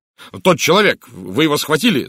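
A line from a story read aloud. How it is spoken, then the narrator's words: Shouting. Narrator (Russian): закричал я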